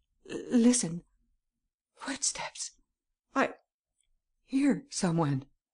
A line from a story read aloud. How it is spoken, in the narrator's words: the young girl suddenly spoke and stammered